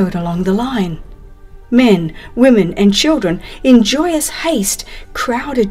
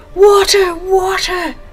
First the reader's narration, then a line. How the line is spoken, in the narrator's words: the glad shout